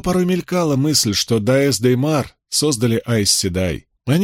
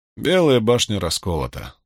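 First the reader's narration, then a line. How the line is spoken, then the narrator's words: Bored voice. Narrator (Russian): скучным голосом произнес Брин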